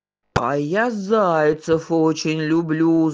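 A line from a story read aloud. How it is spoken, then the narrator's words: Wolf growling. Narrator (Russian): зарычал волк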